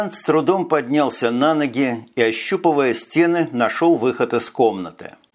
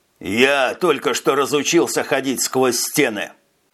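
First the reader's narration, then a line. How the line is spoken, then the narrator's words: Snapping retort. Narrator (Russian): огрызнулся Жак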